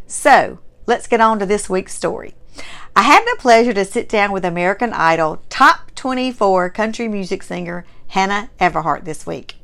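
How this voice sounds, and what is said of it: Strong Southern US accent. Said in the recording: “You have a very strong Southern accent ... having a Mississippi-born Southern heritage ... people recognize who I am by my accent”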